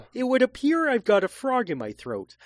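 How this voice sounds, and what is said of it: Kermit the Frog character voice. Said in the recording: “My only voice is Kermit the Frog ... That's my impression.”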